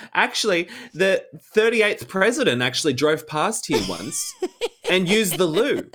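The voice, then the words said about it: Imitates another person's voice. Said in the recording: “the worst Dorinda impression ever”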